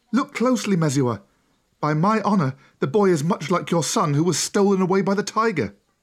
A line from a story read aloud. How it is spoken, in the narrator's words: One of the women cried